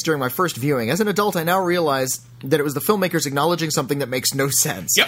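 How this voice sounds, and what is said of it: Usual voice. Nothing is said of it.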